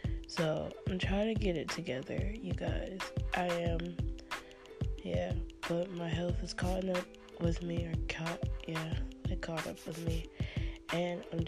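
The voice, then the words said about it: Congested, sick-sounding voice. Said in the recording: “as you can tell by my voice, I'm kind of sick ... I've just really stopped up. My throat hurts.”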